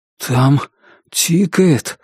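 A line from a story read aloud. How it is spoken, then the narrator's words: Weak voice. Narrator (Russian): слабым голосом сказал он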